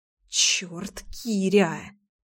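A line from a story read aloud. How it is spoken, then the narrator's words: Muttered, struggling. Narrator (Russian): пробормотала я, с трудом отстранившись от грома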